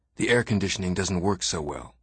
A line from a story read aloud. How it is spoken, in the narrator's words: Farmer whispered to me